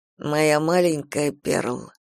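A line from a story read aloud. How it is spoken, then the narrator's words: Weak voice. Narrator (Russian): произнес слабым голосом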